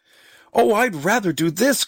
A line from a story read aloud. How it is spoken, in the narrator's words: cried Marguerite